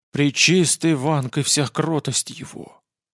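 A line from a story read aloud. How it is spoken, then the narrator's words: Giant's breathed exclamation. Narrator (Russian): выдохнул гигант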